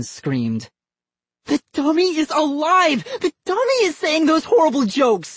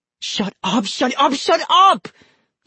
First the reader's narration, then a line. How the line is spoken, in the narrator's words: He cried